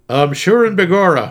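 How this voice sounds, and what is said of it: Put-on Irish accent. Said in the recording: “Can you do an Irish accent?”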